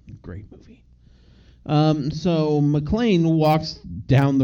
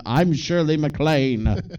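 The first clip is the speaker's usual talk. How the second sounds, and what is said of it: Shirley MacLaine impression. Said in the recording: “my Shirley MacLaine impression”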